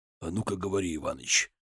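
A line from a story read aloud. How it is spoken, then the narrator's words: Menacing raised voice. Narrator (Russian): грозно повысил голос Нагайцев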